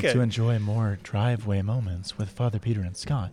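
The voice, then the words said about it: NPR public radio announcer voice. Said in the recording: “that's how they all talk. And that was my NPR voice... That was a good NPR voice.”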